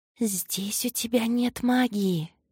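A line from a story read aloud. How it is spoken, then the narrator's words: Whispering voices. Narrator (Russian): шептали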